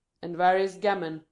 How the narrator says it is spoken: he repeated in a louder voice

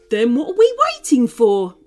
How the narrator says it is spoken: barked Brittany

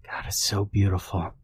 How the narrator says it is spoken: Greg whispers

